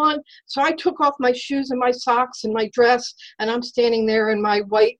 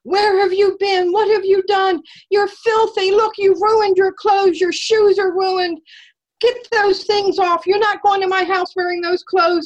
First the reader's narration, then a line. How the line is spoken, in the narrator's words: started screaming